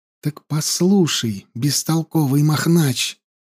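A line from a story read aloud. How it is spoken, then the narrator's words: Hissed into ear. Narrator (Russian): зашипела ему в ухо Янди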